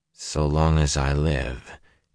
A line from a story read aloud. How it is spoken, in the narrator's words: he said in a dull voice